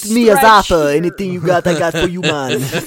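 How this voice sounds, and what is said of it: Put-on Rastafarian accent. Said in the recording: “Rastafarian ... that accent”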